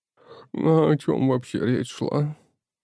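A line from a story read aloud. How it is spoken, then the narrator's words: Sleepy question. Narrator (Russian): Сонным голосом спросила Яна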